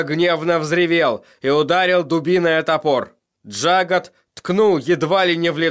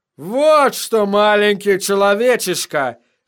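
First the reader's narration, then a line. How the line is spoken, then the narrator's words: Roared. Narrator (Russian): взревел Шага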